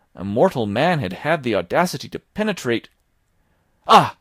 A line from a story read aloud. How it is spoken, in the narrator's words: I cried